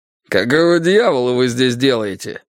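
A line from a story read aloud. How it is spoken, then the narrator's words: Rude question. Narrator (Russian): грубо спросил он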